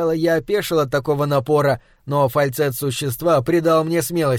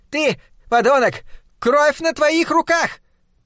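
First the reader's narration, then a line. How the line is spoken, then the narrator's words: Thin high-pitched shout. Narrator (Russian): Демон тонким, так не вяжущимся с его внешностью голоском закричал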